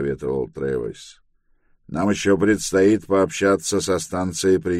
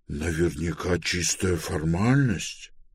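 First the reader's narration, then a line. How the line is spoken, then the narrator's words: Displeased mutter. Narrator (Russian): пробормотал Пилород, недовольно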